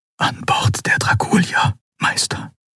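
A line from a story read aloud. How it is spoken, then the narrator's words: Whispering. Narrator (German): flüsterte er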